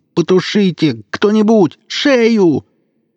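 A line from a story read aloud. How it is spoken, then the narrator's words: Screaming in pain. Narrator (Russian): Превозмогая невыносимую боль, Жорик вопил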